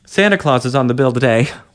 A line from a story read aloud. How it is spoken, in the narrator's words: one of the men chuckled